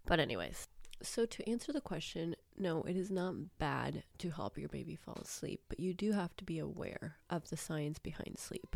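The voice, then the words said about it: Sick-sounding voice. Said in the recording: “wondering why my voice sounds like this. It's because I am sick once more.”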